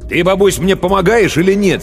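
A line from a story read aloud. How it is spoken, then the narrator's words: Angry question. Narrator (Russian): сердито спросил он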